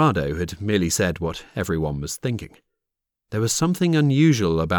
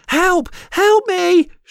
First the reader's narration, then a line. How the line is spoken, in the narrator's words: screamed